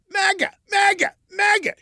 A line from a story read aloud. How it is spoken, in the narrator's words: Burke yelled